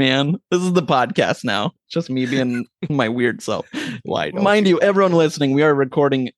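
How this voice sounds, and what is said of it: Usual voice. Nothing is said of it.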